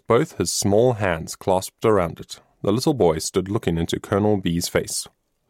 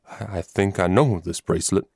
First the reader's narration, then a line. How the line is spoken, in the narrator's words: stammered Colonel B